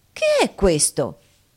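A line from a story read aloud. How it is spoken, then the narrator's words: Exclaimed. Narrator (Italian): esclamò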